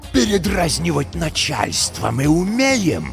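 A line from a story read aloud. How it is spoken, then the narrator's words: Hiss then growl. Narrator (Russian): Прошипел он, но потом опять зарычал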